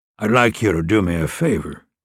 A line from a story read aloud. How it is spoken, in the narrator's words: Moonlark said, his tone conversational